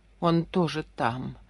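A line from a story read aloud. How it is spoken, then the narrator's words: Muttering. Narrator (Russian): бормотала она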